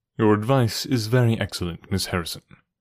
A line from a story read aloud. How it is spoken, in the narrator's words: said Holmes